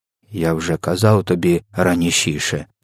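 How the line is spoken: Calm. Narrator (Ukrainian): спокійно мовив він

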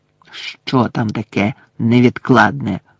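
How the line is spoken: Hissed. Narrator (Ukrainian): Снейп просичав до Каркарова

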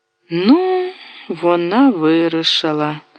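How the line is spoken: Sigh. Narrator (Ukrainian): зітхнула гулка

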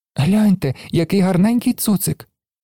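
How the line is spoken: Joyful child's exclamation. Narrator (Ukrainian): радісно вигукнув малий

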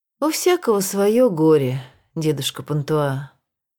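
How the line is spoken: Sad voice. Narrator (Russian): он печальным голосом прибавил

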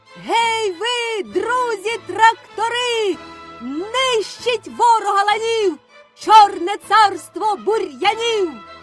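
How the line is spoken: Child shouting from above. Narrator (Ukrainian): Закричав малий згори

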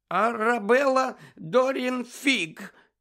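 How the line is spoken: Trembling voice. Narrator (Ukrainian): відповіла вона тремтячим голосом

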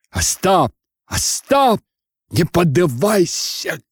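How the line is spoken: Shouting. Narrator (Russian): кричал Тарас

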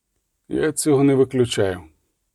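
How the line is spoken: Sighed. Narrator (Ukrainian): зітхнув Геральт

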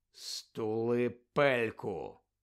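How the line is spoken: Quiet. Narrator (Ukrainian): тихо промовив Гаррі

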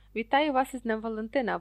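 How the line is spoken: Exclaimed. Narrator (Ukrainian): вигукнув Локарт

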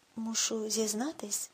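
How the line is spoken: Quiet. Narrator (Ukrainian): тихо мовив Калдервуд

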